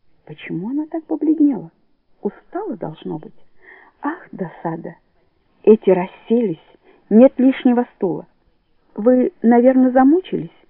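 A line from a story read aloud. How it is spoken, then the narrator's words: Tender, affectionate. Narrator (Russian): ласково говорит Лили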